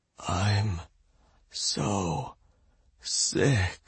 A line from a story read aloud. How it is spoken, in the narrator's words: whispered